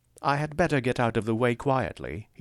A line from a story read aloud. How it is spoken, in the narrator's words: said earnestly